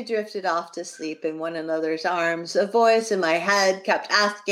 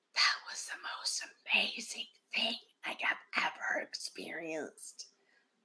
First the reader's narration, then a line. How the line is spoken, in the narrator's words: he whispered